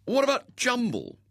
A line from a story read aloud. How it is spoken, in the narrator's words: said indignantly